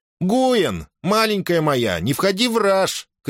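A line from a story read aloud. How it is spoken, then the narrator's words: Shouted. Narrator (Russian): крикнула Таира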